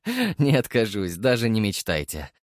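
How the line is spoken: Laughing. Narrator (Russian): рассмеялся я

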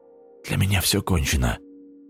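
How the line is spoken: Weak voice. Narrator (Russian): слабым голосом сказал Остап

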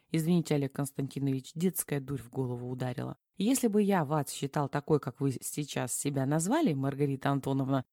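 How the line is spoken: Calm steady tone. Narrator (Russian): спокойным тоном продолжал Платонов

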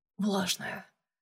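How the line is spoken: Whisper. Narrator (Russian): прошептал он

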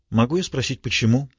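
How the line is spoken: Calm inquiry. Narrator (Russian): спокойно осведомилась Марго

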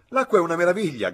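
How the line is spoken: Shouted. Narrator (Italian): gridò Freddy

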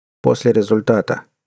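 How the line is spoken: Flat colorless voice. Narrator (Russian): бесцветным голосом сообщил молодой человек

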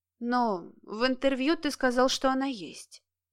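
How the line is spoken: Quiet reminder. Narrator (Russian): тихо напомнила Кира

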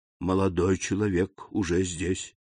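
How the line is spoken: Quiet reply. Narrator (Russian): ответил также тихо камердинер

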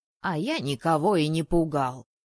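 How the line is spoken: Creaky snapping retort. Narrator (Russian): скрипуче огрызнулся

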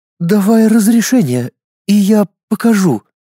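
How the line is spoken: Sullen, focused, through teeth. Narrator (Russian): Хмуро и сосредоточенно процедила она

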